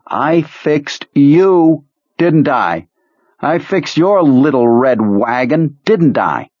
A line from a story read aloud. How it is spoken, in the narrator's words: yelling